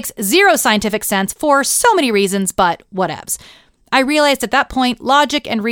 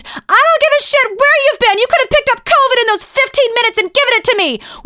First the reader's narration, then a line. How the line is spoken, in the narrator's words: she screamed